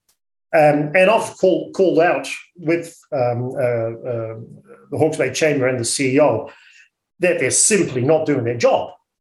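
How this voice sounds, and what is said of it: Dutch accent. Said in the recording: “You'll hear my accent that I'm a Dutchie.”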